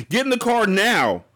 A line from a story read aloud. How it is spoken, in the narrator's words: Estelle yelled at Harmony